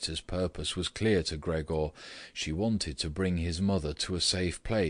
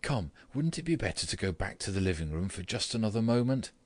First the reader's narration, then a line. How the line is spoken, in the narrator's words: said, although in a trembling voice and too quickly